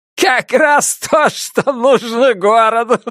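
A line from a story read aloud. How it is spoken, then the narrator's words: Laughing. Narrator (Russian): произнес сквозь смех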